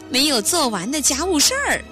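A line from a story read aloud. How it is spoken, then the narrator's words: Laughing. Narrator (Chinese): 玛莎也笑说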